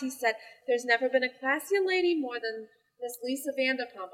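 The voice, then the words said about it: Put-on accent. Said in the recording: “I don't know why I'm sounding like ... this. ... Are you talking like ... that? Just enough to get an accent.”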